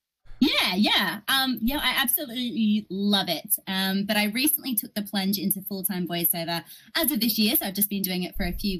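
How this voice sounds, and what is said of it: Australian accent. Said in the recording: “as you can hear, I'm an Australian voice actress”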